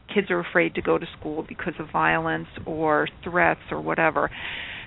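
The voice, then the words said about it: American accent. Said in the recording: “I'm an American, if you can't tell by my accent already”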